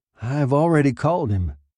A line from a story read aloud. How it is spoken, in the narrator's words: Young said wearily